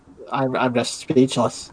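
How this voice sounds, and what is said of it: Funny exaggerated shocked voice. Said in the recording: “in a funny voice... has funny voice... That's my shocked voice.”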